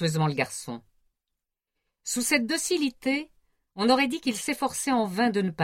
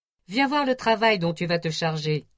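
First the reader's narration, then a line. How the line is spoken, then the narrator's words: Cheerful. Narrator (French): dit gaiement Cadvel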